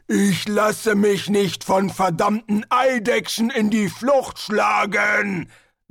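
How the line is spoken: Thundering. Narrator (German): donnerte Hrun

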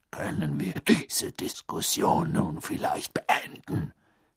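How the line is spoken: Growled. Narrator (German): knurrte Moody

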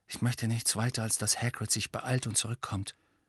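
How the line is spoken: Quiet speech. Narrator (German): sagte Harry leise

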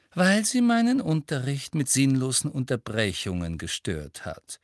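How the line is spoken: Gentle. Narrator (German): sagte Professor Umbridge sanft

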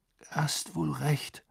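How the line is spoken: Murmuring. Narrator (German): murmelte Harry

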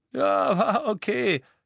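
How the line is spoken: Giggling. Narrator (German): kicherte Dean

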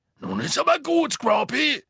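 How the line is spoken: Calling out. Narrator (German): rief Hagrid

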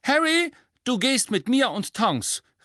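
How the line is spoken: Call. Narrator (German): rief Mrs

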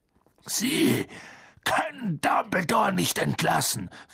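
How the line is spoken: Calling out. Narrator (German): rief Hagrid

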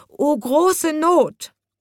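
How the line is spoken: Groaning. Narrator (German): stöhnte

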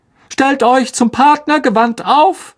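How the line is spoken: Called out. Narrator (German): rief Lockhart

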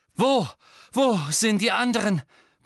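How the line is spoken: Panted. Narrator (German): keuchte Harry

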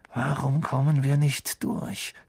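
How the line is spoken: Hiss. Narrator (German): zischte Harry

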